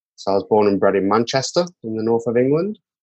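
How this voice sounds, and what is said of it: British accent from the UK. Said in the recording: “as you can hear by the accent, I hail from the UK”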